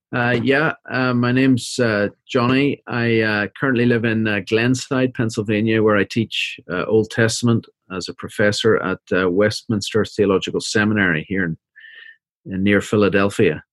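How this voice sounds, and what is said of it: Northern Irish accent. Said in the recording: “You can hear from the accent, I'm not from around here ... I am from Belfast, Northern Ireland, originally.”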